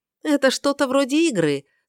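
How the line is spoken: Speaking with a laugh. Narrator (Russian): сказала она, как-то смеясь

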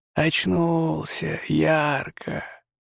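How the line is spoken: Muffled hollow voice, chuckling. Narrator (Russian): Глухим голосом, как будто из бочки, проговорила лихо и посмеивалась

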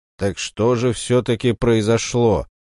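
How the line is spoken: Trying to sound stern. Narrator (Russian): спросила, стараясь, чтобы ее голос звучал строго

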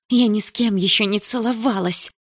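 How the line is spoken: Hissing girl. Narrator (Russian): прошипела девушка

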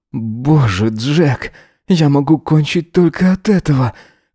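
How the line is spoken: Hoarse breathless moan. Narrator (Russian): Хрипло выдохнул Эзра, застонав

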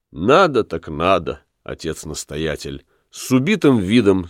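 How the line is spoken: Plain. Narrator (Russian): сказал Помпилий

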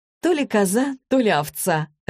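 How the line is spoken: Laughing. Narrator (Russian): рассмеялась Злата

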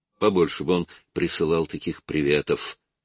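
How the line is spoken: Muttering. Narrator (Russian): пробормотал Артур Уайлд

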